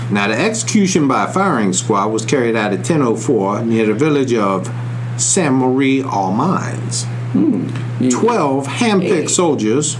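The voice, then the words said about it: Southern American accent. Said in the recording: “And that fake southern accent. ... that is not a fake about my southern accent”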